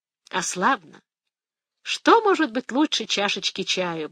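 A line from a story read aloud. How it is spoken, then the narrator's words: Blissful sigh. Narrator (Russian): блаженно вздохнула Фия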